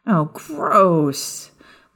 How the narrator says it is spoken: Maya groaned when her vulpine hearing took over

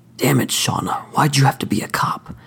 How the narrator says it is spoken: He growled into her ear

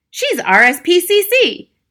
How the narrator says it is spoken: cried Mr

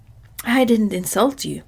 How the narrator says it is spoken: protested Jack indignantly

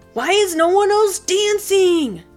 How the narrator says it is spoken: Jackson cried

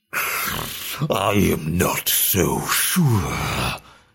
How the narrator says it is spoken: grumbled Malakath

